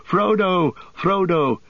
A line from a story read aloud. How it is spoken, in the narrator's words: Merry and Pippin had followed, and they were already disappearing westward into the trees by the shore, shouting